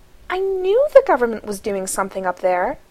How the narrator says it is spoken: Abby exclaims

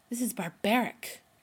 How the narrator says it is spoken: Rodney hisses

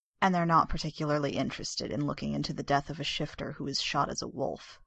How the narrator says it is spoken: Carolyn's mother finished grimly

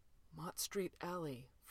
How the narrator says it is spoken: Fraser whispered

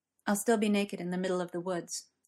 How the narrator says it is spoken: Gwen said quietly

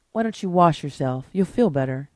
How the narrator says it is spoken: Zena advised gently

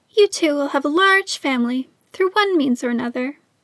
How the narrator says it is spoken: a small voice piped up from behind them

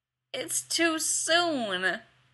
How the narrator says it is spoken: whined

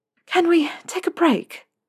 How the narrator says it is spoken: Narcissa said, panting with the effort of channeling magic through her wand once more

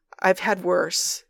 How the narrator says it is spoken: he croaks

